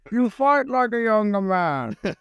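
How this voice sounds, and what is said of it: Bane villain voice impression. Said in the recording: “that Bane accent really is something ... That's pretty good ... That was quite impressive ... Close my eyes. You were Tom Hardy, mate.”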